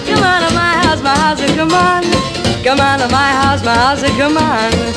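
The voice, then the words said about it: Fake Italian accent in singing. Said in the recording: “accent there is not cod Armenian, but cod Italian”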